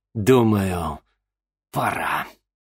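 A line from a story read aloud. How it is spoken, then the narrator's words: Through gritted teeth. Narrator (Russian): процедил сквозь зубы Арбогаст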